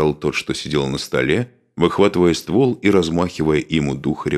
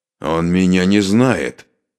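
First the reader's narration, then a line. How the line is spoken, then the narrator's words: Angry, through gritted teeth. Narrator (Russian): злобно процедил обладатель пистолета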